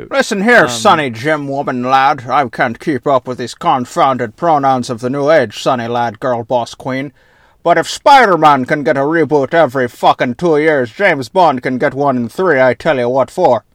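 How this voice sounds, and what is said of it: Put-on Scottish accent, inconsistent. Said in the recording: “keep defaulting to Sean Connery. Like, you keep trying to do Scottish ... that accent really fucking got away from me”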